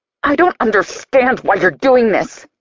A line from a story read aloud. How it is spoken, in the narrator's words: I snarl